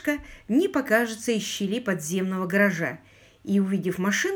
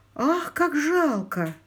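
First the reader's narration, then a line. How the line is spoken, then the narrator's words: Exclamation. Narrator (Russian): воскликнула Полли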